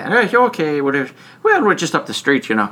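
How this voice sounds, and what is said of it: Imitated Irish accent. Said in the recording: “there's an Irish accent, of course, when they're saying it”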